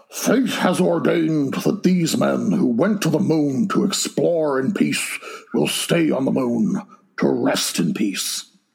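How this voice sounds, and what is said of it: Imitates another person's voice, admittedly bad. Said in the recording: “my bad Nixon voice ... in a Nixon voice”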